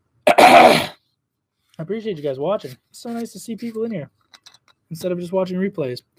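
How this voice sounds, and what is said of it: Hoarse, strained voice. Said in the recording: “I'm still losing my voice.”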